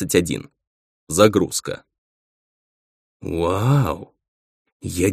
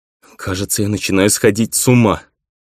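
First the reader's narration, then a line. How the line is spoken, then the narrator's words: Near-tears moan. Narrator (Russian): Чуть не плача, простонал я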